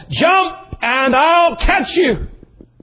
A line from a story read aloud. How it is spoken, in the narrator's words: he kept yelling to his boy